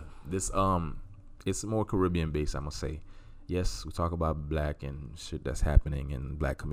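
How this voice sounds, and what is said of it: Usual voice. Nothing is said of it.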